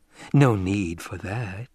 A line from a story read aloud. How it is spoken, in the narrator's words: Jessica murmured